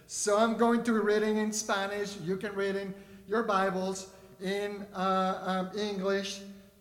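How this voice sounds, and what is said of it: Non-native English accent. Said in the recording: “my accent ... English is not my first language”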